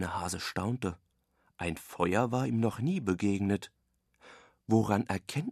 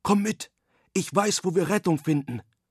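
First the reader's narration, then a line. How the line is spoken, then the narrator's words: Wild boar calling. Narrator (German): rief die Wildsau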